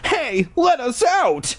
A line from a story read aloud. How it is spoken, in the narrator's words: Ashley cried